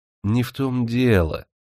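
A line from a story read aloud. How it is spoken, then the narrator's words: Soft, ingratiating voice. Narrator (Russian): Стараясь смягчить пьяницу, вкрадчивым голосом заговорил Николай Никитич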